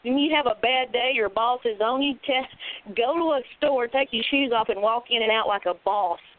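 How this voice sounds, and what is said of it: Southern US redneck accent. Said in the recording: “my redneck accent ... my redneckness”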